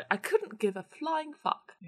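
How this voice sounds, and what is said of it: Posh, classy imitated voice. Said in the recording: “my mum's posh... It sounds classy when she says it... when I do this voice, it sounds exactly like my gran”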